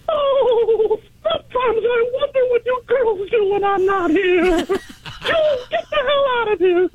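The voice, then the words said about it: Impression sounding like Mickey Mouse. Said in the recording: “You sound like Mickey Mouse.”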